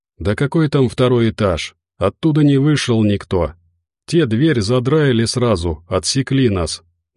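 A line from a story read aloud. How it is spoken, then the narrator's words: Sad. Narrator (Russian): грустно махнул Зо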